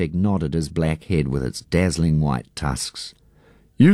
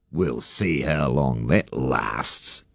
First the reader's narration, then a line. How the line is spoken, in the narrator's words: Harry Wakatipu sneered